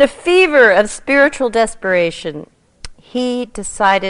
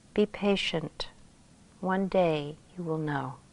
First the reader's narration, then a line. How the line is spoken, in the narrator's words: teacher gently replied